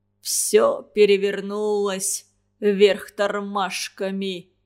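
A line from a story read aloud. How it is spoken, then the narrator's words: Grumbling. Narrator (Russian): ворчал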